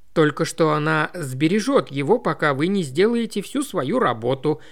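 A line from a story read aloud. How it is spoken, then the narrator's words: Plain. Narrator (Russian): ответила Роуз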